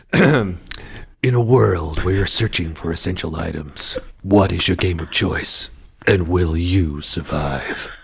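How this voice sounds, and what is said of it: Dramatic movie trailer narrator voice. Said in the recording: “the movie voice ... I'll give you the movie trailer voice”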